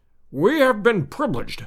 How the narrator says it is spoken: he cried, strutting about like a gamecock

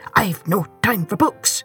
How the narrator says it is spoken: he grumbled

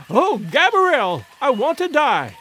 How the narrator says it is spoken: cried the poor woman

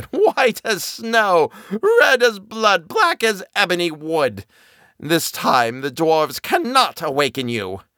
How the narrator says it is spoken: The queen … with a gruesome stare, laughed loudly, and said

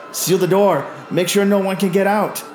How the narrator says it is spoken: shout

